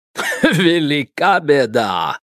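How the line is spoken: Chuckling. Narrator (Russian): хохотнул Эдуард Сигизмундович

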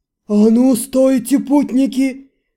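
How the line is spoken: Terrifying roar. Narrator (Russian): Проревел страшным голосом

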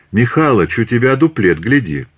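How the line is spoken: Cheerful empress. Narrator (Russian): императрица сказав весело

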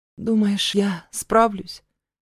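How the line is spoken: Uncertain question. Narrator (Russian): Неуверенно спрашиваю

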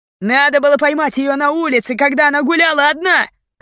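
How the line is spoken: Shout. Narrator (Russian): крикнул кто-то

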